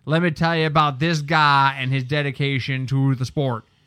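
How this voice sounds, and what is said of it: Bad John Gruden impression. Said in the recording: “worst John Gruden impression”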